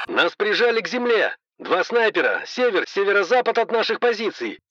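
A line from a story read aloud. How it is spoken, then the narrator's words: Soldier shouting over gunfire. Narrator (Russian): крикнул ратник, и на заднем фоне я услышал стрекот пулемета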